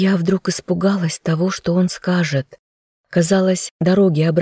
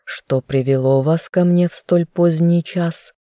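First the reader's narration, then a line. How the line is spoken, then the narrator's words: Through gritted teeth. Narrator (Russian): процедил жених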